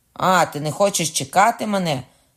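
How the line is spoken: Shouted. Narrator (Ukrainian): крикнув Кокона

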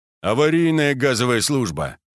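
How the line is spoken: Plain. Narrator (Russian): ответил Герасимов

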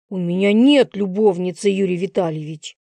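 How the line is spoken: Hiss. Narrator (Russian): Прошипел мудак

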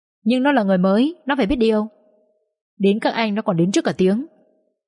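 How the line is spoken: Snapping. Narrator (Vietnamese): Vĩnh gắt

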